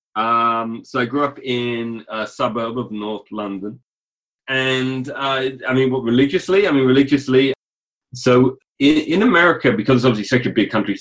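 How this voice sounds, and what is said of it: British accent. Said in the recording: “by accent and by association, did not grow up in the United States ... You grew up in Britain.”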